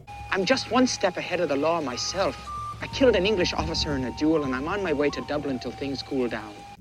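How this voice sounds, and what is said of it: Poor put-on Irish accent. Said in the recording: “gives the Irish accent in this movie the old college try. It's awful. ... he does not give the Irish accent its due credit”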